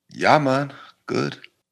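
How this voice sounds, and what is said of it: Very poorly done put-on accent. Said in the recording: “That was the worst accent you've ever done in your whole entire life.”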